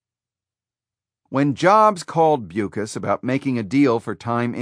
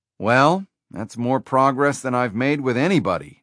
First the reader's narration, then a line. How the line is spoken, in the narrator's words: Jobs replied